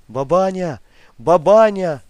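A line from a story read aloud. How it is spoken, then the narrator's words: Shouted. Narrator (Russian): крикнул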